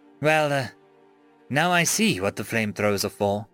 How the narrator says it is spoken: the female guard sighed

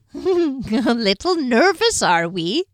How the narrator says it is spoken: the old man wheezed

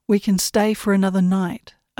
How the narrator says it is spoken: I said

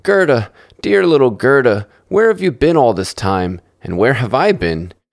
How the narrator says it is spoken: cried out joyously

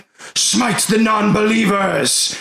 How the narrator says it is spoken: they're going to yell out in unison

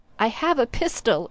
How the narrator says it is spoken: it cried

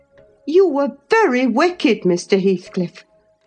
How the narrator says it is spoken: I exclaimed

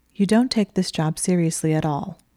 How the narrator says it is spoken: she said, her voice flat

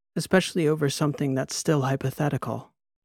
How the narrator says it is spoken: she said, sipping her wine, sighing

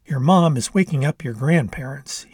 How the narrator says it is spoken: he said

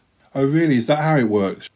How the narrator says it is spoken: She laughs, unconvinced

